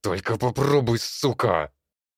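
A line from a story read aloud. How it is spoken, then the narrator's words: Hissed. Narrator (Russian): шипел Сергей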